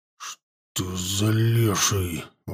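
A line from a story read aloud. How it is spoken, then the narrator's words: Breathless exhale. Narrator (Russian): выдохнул он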